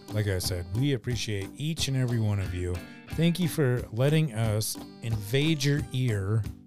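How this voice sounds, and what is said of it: Raspy voice. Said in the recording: “my voice is raspy.”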